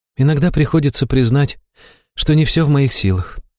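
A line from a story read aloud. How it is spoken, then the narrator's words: Sighing. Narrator (Russian): жрица вздохнула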